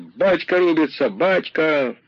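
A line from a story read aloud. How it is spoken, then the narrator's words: Frenzied crowd shouting. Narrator (Russian): махновцы кричали бешено, разжигая себя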